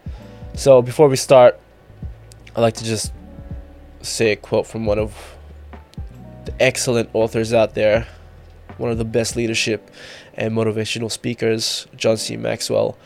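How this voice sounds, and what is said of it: Congested, blocked-nose voice. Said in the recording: “Apologies for my voice as well. I've got a little bit of a cold going on, blocked nose.”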